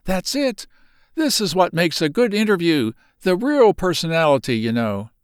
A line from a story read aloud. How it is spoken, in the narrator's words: cried eagerly